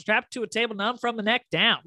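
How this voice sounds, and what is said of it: Imitating Blanche's accent. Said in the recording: “she says it in such a great accent too”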